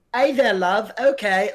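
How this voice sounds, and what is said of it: Put-on British accent. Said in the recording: “she's doing a full on, like ... just like a full British accent.”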